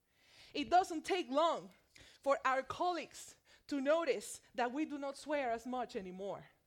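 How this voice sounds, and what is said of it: Spanish accent. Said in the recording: “the sound of my Spanish accent”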